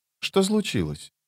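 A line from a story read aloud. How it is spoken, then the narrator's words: Quiet, frowning question. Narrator (Russian): тихо спросил он, хмурясь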